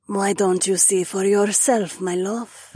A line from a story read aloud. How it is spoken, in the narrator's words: Nerissa cooed